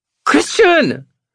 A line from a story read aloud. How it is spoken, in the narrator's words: She squeals